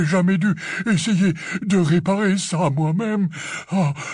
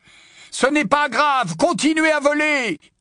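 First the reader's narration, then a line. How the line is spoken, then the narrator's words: Shouted. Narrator (French): cria Harry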